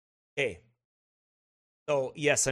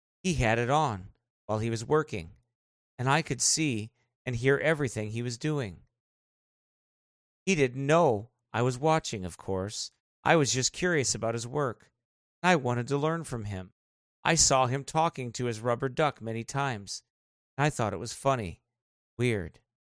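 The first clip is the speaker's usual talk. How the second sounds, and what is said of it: Creepy reading voice. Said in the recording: “I'm using the creepy voice on purpose”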